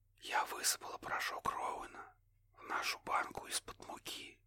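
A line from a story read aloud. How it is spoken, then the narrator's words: Barely audible whisper. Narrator (Russian): едва слышно прошептала Кэтлин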